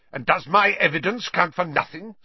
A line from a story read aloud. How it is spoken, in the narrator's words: snarled Snape